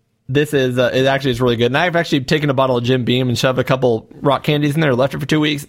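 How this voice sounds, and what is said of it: Usual voice. Nothing is said of it.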